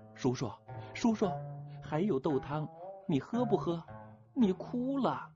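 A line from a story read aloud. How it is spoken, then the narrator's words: Little girl calling. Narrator (Chinese): 那个叫连连的总角小丫头喊着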